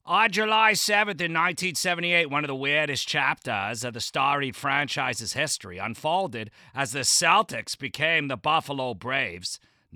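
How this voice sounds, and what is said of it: Deliberately bad Boston accent. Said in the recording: “read from Celtics Wire in a piss-poor Boston accent”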